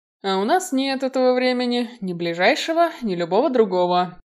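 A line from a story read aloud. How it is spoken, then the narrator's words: Sighing. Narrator (Russian): вздохнул Киган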